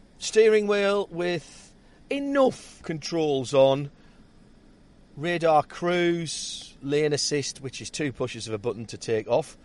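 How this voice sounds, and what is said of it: Northeastern English accent. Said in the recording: “my northeastern accent”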